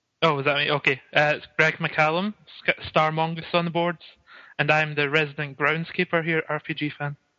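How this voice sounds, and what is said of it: Scottish accent. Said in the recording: “He has a wonderful Scottish accent. ... his awesome accent”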